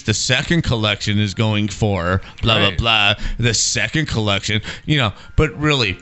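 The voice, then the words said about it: Mock priest-like sermon voice. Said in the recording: “I sound like a Catholic priest.”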